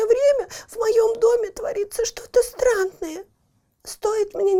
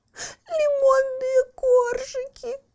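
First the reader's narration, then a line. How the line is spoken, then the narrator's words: Sobbed. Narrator (Russian): всхлипнула Барбариска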